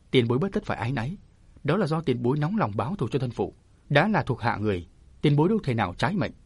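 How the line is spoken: Smiling. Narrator (Vietnamese): Chàng mỉm cười

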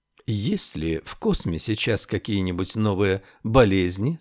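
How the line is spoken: Plain. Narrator (Russian): спросила она

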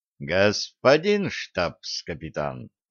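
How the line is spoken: Changed tone. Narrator (Russian): произнес полковник совершенно другим тоном

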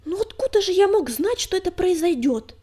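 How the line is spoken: Increasingly irritated snap. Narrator (Russian): С нарастающим раздражением огрызнулся Крутобок

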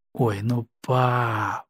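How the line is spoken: Whiny, capricious drawl. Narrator (Russian): капризно протянула Лариса

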